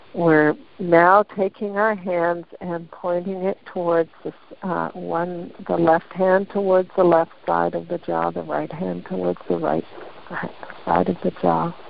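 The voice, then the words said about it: Slightly gravelly, throaty voice. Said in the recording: “I'm getting some stuff in the throat here ... my voice is a little bit gravy here”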